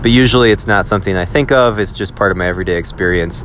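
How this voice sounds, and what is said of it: Wisconsin American accent. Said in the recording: “You sound like you're from Wisconsin ... I do sound like I'm from Wisconsin ... my Wisconsin accent”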